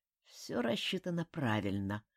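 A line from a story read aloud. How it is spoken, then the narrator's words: Mutter. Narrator (Russian): пробормотал он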